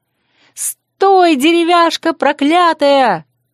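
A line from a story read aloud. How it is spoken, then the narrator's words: Angry yelling. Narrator (Russian): сердито заорала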